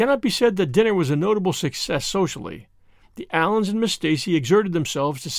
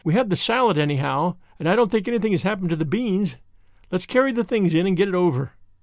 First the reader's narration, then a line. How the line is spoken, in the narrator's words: said Anne, sobering down again with a sigh of recollection